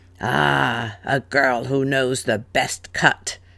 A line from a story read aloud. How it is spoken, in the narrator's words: said with a growl